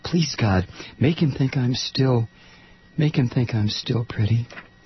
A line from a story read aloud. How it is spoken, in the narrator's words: she whispered